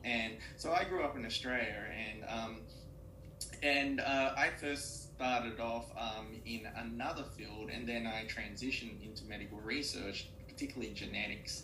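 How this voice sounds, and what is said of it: Australian accent. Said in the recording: “I grew up in Australia, and that's the reason why I have an Australian accent, as the audience probably can already tell.”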